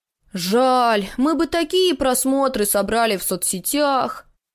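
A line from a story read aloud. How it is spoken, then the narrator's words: Exaggerated loud sigh. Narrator (Russian): Дава нарочито громко вздохнул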